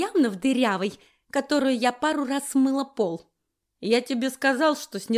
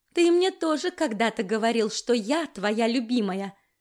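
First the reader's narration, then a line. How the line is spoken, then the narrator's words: Plain. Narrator (Russian): сказала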